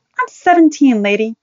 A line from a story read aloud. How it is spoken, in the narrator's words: Joni said angrily